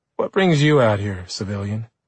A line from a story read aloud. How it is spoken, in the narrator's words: she asked